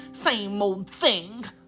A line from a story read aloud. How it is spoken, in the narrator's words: growled Joel